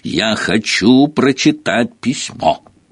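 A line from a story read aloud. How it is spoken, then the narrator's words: Loud declaration. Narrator (Russian): громко заявил он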